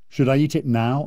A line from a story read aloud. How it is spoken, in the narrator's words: I asked